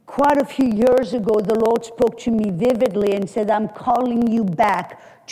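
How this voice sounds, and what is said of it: French accent. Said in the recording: “can tell by my accent that I'm not from South Texas ... I was born and raised in France”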